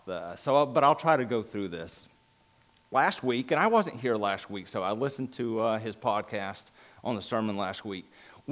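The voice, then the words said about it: Thick regional accent. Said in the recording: “I've got a lot more accents in my mouth and everything, so a lot more rocks in my mouth”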